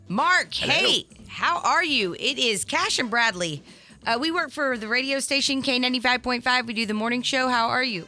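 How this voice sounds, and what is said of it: Scripted telemarketer-style delivery. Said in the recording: “You sound like a telemarketer”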